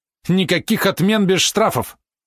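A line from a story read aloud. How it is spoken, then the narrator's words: Angry barked retort. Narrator (Russian): Он от злости зло бросил, как пролаял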